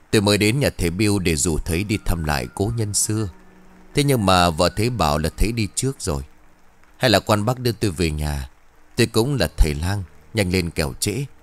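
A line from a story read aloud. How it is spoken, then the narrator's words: Deep low voice. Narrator (Vietnamese): Bằng một giọng trầm trầm, vị thầy lang liền bảo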